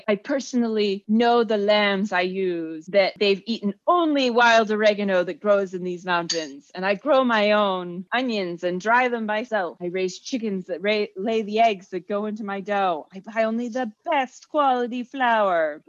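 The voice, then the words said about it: Attempted Turkish accent. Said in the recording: “trying to do an accent? I could not do a Turkish accent”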